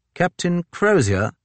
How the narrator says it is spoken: he said stiffly

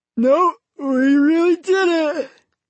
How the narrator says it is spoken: Johnny replied, still yawning from sleep

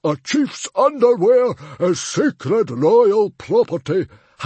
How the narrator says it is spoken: howled Stoic the Vast

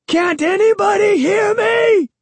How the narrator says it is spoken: I shrieked

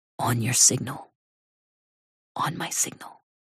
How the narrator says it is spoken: murmurs

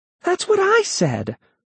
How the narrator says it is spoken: Melody exclaimed

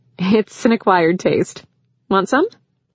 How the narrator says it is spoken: she laughed and said

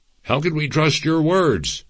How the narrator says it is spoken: the spokesman replied, and angrily added

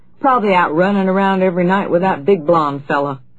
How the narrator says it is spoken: Comer's voice chuckled comfortably

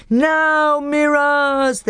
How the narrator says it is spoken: they yelled

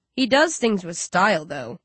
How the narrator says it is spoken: Rage chuckles, smiling

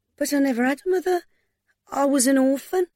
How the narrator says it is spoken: In a high voice, she said

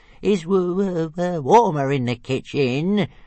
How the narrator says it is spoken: whined Toothless

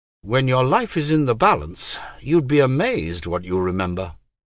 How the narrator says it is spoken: Dryly, Miranda said

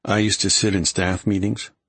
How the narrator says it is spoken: Graham murmured against his neck

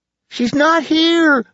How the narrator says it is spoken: Lacey cried

